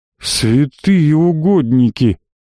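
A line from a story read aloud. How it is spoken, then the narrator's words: Breathless exclamation. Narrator (Russian): выдохнул Григорий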